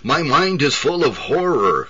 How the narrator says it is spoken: cried the dying man

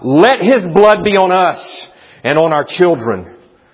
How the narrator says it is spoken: So blinded were they by their envy, they shouted out

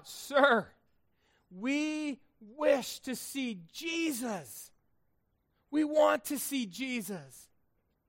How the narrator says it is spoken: some Greeks, Gentiles, came to Philip, and they cried out

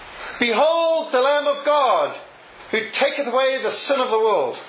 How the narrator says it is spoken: Testing the acoustics in the vast agricultural hall, Spurgeon shouted

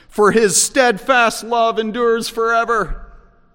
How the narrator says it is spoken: the whole crowd shouts

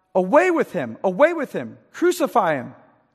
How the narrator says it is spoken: they cried out

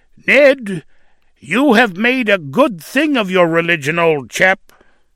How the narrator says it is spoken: One scoffer tauntingly said to him

